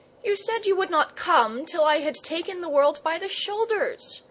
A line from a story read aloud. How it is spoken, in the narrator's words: gasped Leo